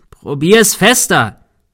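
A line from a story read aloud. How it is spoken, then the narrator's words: Shouted. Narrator (German): schrie Thomas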